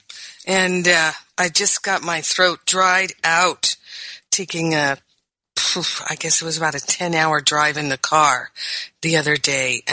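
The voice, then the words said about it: Croaky, dry-throated voice. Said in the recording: “My voice is a little croaky ... my throat is recovering”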